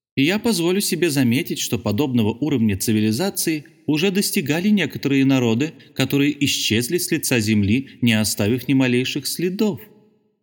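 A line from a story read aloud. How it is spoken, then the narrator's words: Thin little voice. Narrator (Russian): сказал своим тоненьким голоском председатель Мендоса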